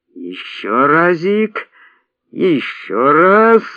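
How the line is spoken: Strained sing-song wheeze. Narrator (Russian): распевно хрипел Арон, и в его натужном хрипе явно прослеживалась исконно русская мелодия бурлацкой дубинушки

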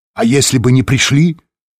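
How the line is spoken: Snapping retort. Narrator (Russian): огрызнулся Лэнгдон

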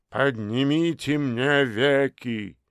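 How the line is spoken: Grim. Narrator (Russian): мрачно произнес профессор Духоборов

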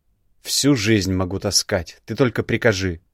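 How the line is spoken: Snorting. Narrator (Russian): Хмыкнул

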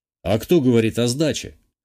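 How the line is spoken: Snort. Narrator (Russian): хмыкнул я

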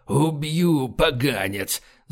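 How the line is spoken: Angry breathless rasp. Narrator (Russian): злобно прохрипел он, задыхаясь от бега

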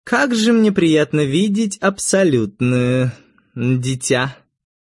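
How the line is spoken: Cooing. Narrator (Russian): проворковала Этта

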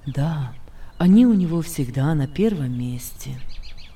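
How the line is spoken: Sad. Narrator (Russian): ответил Иосиф, голос Иосифа при этом прозвучал грустно

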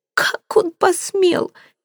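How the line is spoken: Girl sobbing. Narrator (Russian): девушка снова разрыдалась

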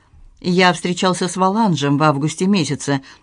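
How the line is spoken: Impassive tone. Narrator (Russian): бесстрастным тоном произнес

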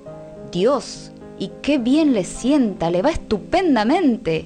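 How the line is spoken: Group exclaiming. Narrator (Spanish): exclamaban todos

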